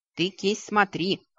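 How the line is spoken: Snorting. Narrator (Russian): хмыкнул Вик

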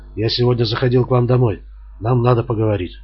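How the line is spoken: Quiet speech. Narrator (Russian): он тихо сказал

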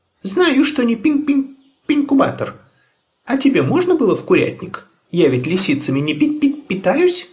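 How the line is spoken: Squeaky voice. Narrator (Russian): запищала Тутта Карлсон

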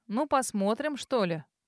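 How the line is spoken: Grumble. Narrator (Russian): проворчала Фран

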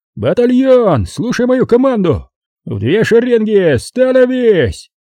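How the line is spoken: Hoarse shout. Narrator (Russian): хриплым голосом прокричал Плетнев

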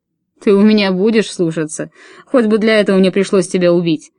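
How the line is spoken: Growled. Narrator (Russian): прорычал он

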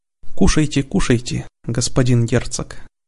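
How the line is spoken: Gentle, affectionate offer. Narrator (Russian): ласково предложил Родерик

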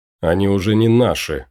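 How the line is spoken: Snorting. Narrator (Russian): фыркнул Кайл

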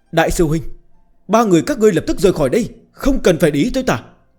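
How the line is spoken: Urgent shout. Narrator (Vietnamese): giọng điệu cấp bách la lên

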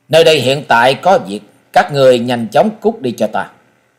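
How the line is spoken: Cold, impatient. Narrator (Vietnamese): Mỹ thiếu niên sớm đã hết kiên nhẫn, lạnh lùng hướng về phía sáu lão quái nhân nói

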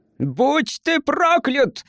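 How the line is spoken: Yelling. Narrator (Russian): завопил португалец

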